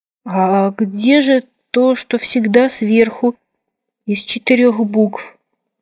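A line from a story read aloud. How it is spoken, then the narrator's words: Crestfallen question. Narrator (Russian): упавшим голосом спросил современный писатель из 10 букв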